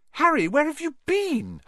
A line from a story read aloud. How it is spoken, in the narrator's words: Hermione squeaked